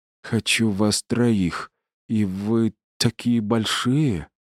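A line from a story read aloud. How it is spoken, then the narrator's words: Whimper. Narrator (Russian): она захныкала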